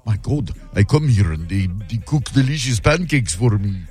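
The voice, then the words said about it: Weird put-on Eastern European accent. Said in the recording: “that was a weird accent. ... I would say it's like Eastern Europe somewhere.”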